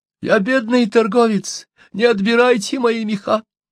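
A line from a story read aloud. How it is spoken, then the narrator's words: Sobbing. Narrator (Russian): всхлипывал он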